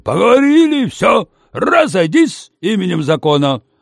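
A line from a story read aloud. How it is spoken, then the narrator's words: Loud bark. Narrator (Russian): Пандарей гаркнул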